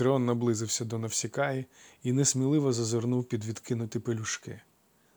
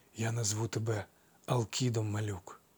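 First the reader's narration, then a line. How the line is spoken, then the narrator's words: Inaudible whisper. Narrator (Ukrainian): нечутно прошепотів він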